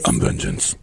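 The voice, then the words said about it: Deep gravelly Batman voice. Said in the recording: “deep voice? What was the Batman voice?”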